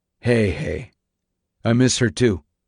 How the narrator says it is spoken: Eagle say in a quiet tone

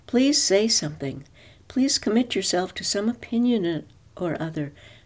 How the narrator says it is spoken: he begged her silently

